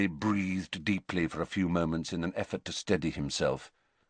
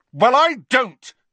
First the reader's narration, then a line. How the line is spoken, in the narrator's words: he said as loudly as before